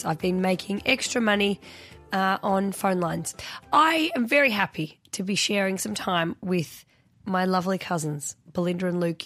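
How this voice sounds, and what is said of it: Husky, sexy voice. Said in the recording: “a very husky and sexy voice.”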